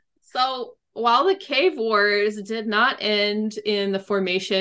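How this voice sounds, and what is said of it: Usual voice. Nothing is said of it.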